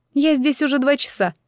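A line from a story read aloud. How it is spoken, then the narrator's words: Angry. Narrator (Russian): сердито сказала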